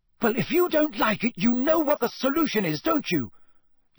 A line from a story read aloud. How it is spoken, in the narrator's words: yelled Hermione